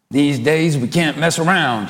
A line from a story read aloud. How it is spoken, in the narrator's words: he growls